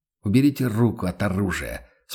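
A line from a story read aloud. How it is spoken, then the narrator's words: Calm. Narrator (Russian): спокойно произнес он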